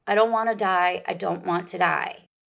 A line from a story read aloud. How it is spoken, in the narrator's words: She cried out